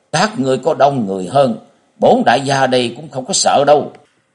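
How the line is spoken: Yelling, loud shout. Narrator (Vietnamese): Ân Bổn thét lên một tiếng, miệng quát to

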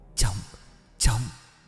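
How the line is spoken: Trembling voice. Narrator (Vietnamese): cất tiếng bằng cái chất giọng run rẩy

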